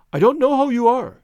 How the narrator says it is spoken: cried

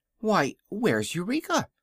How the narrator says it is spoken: cried Dorothy suddenly

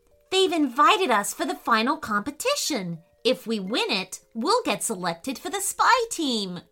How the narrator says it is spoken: cried Leo excitedly

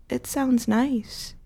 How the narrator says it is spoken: I murmured

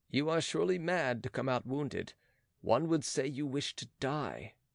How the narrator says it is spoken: Philippe said in a low voice

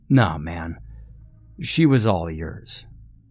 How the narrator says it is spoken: grunted

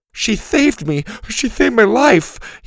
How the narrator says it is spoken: whimpered

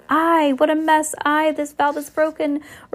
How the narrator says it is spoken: the captain shouting

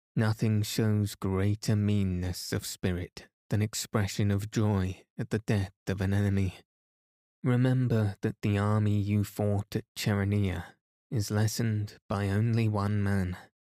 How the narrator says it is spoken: Phocion, who was both a general and an orator, said gravely

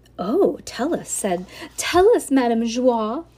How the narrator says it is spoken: cried Dulcie

